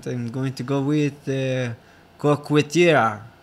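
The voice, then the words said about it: Put-on French accent. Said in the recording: “This is in the French accent.”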